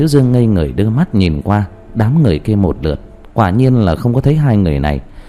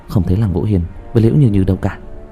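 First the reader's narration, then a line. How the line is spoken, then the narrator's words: Whisper in ear. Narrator (Vietnamese): Nhuế Lãnh Ngọc nói vào thì thầm bên tai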